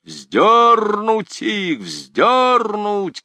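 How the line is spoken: Crowd shouting. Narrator (Russian): кричали со всех сторон

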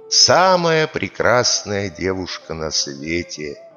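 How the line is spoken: Calm reply. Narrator (Russian): А Масип им спокойно отвечает

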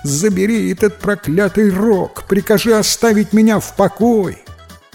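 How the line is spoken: Pleading, howling in pain. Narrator (Russian): Взмолился жадный приказчик, воя от боли

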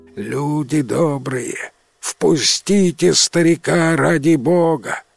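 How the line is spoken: Feigned old man's voice. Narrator (Russian): Иванка просит старческим голосом

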